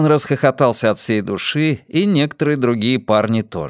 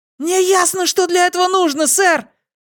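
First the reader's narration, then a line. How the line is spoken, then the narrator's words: Loud shout, voice cracking. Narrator (Russian): Мышь кричал так громко, что голос его подвел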